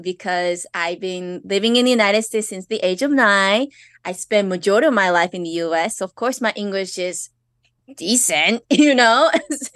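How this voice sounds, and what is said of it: Slight Japanese accent in English. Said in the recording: “I do have an accent... little bit of Japanese accent when I speak English”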